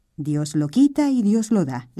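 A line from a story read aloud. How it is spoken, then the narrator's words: Plain. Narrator (Spanish): le dijo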